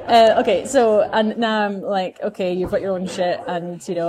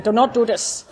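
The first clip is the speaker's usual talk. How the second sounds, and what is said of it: Bad fake German accent. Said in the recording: “Worst German pretend accent ever... a bad German pretend accent”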